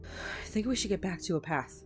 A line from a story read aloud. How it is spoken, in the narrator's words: Tommy panted, trying to keep up with his friend